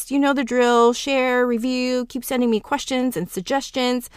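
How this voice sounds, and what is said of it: Talking really fast. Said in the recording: “why I'm talking really fast”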